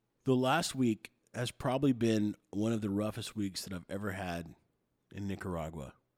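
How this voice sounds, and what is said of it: Sick, raspy, nasally voice. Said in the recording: “I apologize for my voice today. I've been a little bit sick, so it may sound like I'm being extra snarfly or raspy or nasally”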